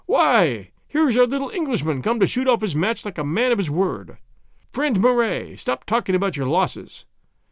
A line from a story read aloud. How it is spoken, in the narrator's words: exclaimed in his jolly voice